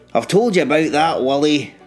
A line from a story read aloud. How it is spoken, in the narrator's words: Rob snapped